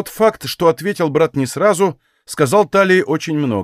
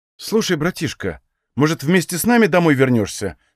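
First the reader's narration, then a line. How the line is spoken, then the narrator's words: Worried question. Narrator (Russian): спросила обеспокоенным тоном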